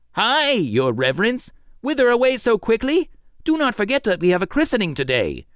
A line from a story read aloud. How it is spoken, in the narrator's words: He was astonished at this and called out